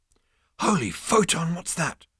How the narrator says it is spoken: breathed Zaphod

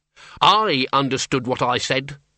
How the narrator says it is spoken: snapped Doreen, in the more normal tones of one born and brought up in Ankh-Morpork, rather than some Transylvanian fastness

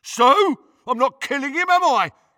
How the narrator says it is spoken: yelled Crab

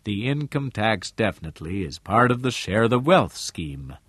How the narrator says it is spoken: Harmon said in his cultured, calm voice

